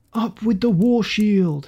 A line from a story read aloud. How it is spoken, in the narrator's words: shouted King Harald